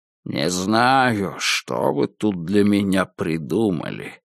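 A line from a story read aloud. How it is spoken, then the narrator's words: Grumbling while leaving. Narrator (Russian): пробурчал Альфред, уходя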